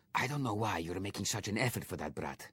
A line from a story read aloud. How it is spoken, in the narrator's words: whispered Victor